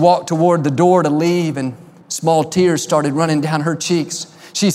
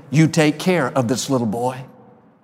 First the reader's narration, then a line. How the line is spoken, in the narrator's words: said gently